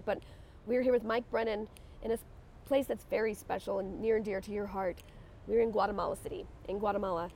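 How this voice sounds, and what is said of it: Congested voice from a cold. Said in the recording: “I have a little bit of a cold ... my voice is struggling just a little bit”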